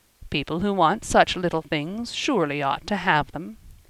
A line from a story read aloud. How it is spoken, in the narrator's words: he said dryly